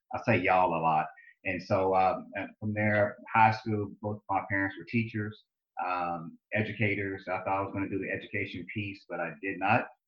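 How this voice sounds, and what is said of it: Southern US drawl. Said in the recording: “You probably hear my accent, my southern drawl.”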